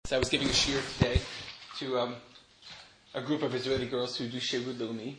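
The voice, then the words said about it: American accent. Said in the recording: “my American accent, which is unavoidable”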